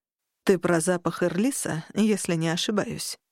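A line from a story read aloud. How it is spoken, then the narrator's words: Quiet, confident interruption. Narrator (Russian): Негромко, но уверенно прервал Шаксус Джер Варук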